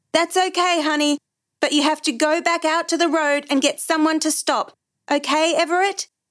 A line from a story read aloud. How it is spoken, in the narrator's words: he tried not to sound scared as he shouted up to his son